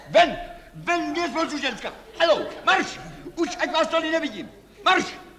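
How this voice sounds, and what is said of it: Shouting. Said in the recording (Czech): “Nekřičte!”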